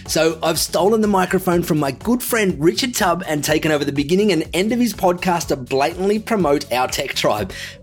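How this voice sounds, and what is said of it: Australian accent. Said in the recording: “as you can probably tell from the accent, also from Australia”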